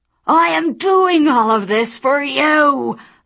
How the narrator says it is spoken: Lucifer shouted

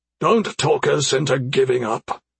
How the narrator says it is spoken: Kernich sounded to be speaking through clenched teeth

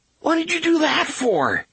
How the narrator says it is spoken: Jake cried, hurt and outraged

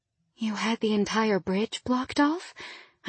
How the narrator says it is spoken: I gasped

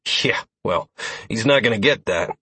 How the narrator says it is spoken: I grunted

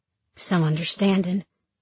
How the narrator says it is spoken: I mutter

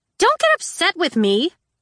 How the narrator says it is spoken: Tella snapped

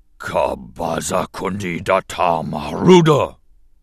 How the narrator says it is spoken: he growled

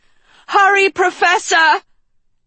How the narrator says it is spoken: Agatha shouted into the cave

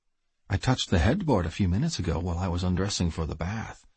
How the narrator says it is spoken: she purred into my ear

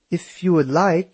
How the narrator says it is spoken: said in her German accent

